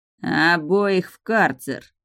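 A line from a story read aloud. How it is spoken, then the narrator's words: Monarch hissing. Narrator (Russian): прошипел монарх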